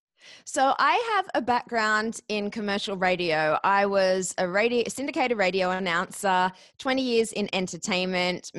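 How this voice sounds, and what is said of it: Australian accent. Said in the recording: “moved from Australia to the US ... could not get a job in radio with this accent”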